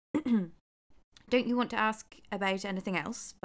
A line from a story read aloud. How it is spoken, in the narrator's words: Baba Yaga said